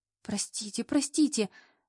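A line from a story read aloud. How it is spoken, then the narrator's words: Muttering. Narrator (Russian): бормотала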